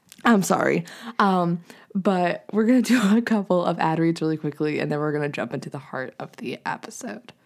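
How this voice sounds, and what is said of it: Strained, fading voice. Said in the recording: “I'm also losing my voice ... I hear that”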